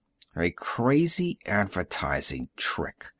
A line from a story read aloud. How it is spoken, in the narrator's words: Burkhart said bitterly